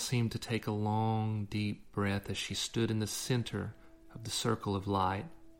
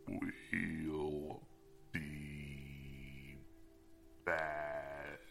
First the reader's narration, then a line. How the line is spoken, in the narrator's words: she croaked